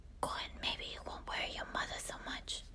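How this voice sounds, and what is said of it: Put-on accent. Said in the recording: “I can't get out of the accent.”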